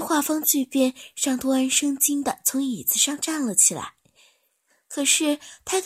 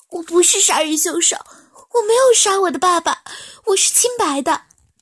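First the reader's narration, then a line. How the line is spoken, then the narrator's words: Crying, shouting. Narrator (Chinese): 气若游丝的罗芷欣 一边哭一边喊道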